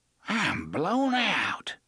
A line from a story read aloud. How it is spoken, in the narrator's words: Gasher gasped